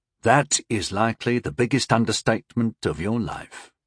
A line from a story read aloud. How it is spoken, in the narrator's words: Tyndall said, shaking his head quietly in misery